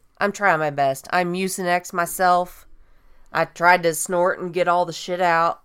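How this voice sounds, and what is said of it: Nasal, hoarse voice. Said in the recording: “I've had this massive head cold. So if I sound a little nasally or hoarse”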